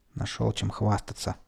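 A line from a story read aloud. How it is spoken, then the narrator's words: Quiet. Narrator (Russian): тихо сказал я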